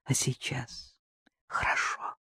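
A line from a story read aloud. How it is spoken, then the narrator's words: Whisper in ear. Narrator (Russian): шепнул мне на ухо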